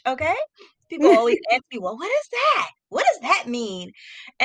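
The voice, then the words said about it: American Philadelphia-area accent. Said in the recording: “if you can hear my voice and my accent, I'm all the way in the US of A, ... in the Philadelphia area”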